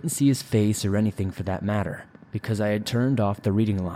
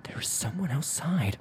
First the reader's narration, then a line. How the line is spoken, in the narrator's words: I whispered